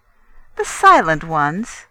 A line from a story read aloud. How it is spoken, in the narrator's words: the priestess laughed